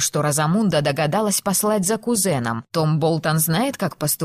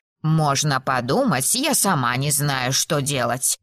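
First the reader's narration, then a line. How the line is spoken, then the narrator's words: Grumbling. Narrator (Russian): проворчала Мейбл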